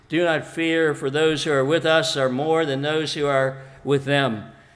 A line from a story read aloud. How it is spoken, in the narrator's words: Elisha answered calmly